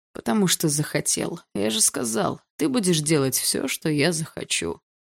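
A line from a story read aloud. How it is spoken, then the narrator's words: Lazy male reply. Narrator (Russian): лениво ответил он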